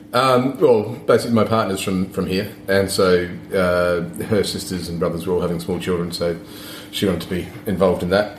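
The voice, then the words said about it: Australian or New Zealand accent. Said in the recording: “there's an accent, so you're from Australia/New Zealand”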